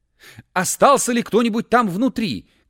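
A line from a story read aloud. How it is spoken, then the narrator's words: Shouting. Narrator (Russian): крикнул он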